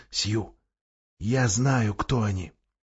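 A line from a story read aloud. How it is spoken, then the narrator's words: Whisper. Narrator (Russian): Люси прошептала Сьюзан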